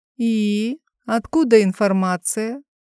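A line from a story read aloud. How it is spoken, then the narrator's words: Lazy drawl. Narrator (Russian): протянула лениво моя любимая Аннабель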